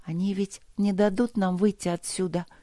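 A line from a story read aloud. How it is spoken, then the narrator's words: Barely audible whisper. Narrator (Russian): прошептала Алина едва слышно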